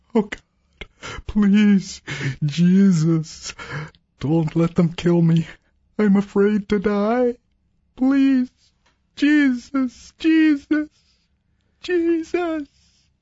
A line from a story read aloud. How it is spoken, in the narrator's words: A shell exploded nearby, and he sobbed